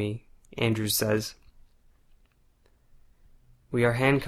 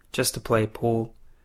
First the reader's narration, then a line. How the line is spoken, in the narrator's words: Darren replies in a monotone voice